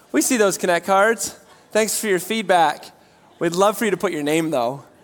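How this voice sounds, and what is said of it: Slightly raspy voice. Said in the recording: “my voice is a little raspy”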